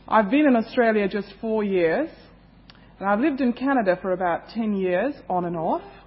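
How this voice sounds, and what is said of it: Indian accent. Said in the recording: “I come from India, that's my home, so you will excuse my accent a little bit.”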